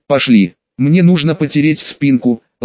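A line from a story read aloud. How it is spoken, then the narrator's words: Affectionate. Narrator (Russian): ласково сказала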